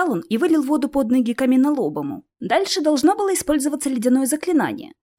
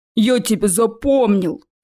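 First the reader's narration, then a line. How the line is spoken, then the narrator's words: Thundering troll. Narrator (Russian): Прогремел тролль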